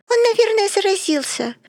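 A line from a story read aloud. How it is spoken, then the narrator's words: Squeaky, hard-of-hearing voice. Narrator (Russian): пропищала глуховатая Вива Кернштейн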